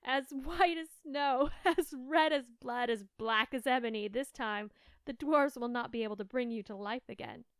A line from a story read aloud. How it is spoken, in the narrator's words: the queen laughed aloud and cried